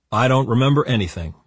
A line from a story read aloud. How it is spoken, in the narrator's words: Nicholas said